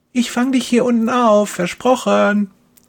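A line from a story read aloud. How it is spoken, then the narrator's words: Calling out. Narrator (German): ruft Kerstin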